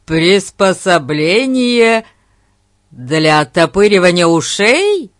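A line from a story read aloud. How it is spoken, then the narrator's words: Loud laughter. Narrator (Russian): расхохотался Дженкс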